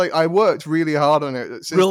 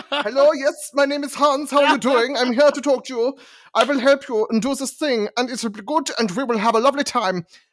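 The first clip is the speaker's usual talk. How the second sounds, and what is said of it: Exaggerated comedic German accent. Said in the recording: “I attempted a Germanic accent, and it became that comedy... why can't I do a non-ridiculous German accent?”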